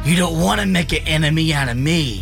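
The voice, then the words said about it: Mob boss-like threatening voice. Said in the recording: “His voice, where he sounds like he's a mob boss threatening somebody, is absurd ... that's a great impression”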